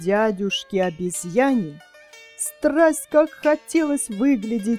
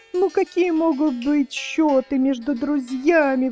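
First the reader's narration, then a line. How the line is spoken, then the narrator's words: Exclaiming. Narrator (Russian): воскликнул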